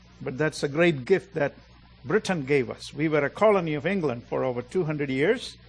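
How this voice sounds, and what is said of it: Indian English accent. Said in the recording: “We don't speak like you all speak. We have an accent.”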